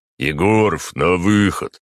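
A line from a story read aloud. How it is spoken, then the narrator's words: Deep booming voice. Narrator (Russian): пробасил дежурный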